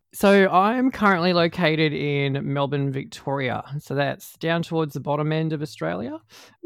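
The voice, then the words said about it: Australian accent. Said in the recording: “my Aussie accent's not uh, too too hard for people to, to, to understand”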